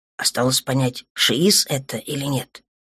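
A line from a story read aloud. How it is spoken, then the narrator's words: Muttered to self. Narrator (Russian): пробормотал себе под нос нынешний капитан флагмана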